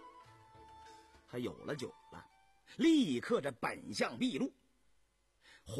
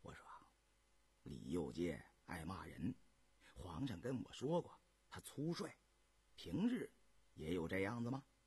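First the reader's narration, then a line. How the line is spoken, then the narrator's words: Whispered question. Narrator (Chinese): 因悄声问尹继善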